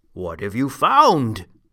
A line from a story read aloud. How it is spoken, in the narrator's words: he called out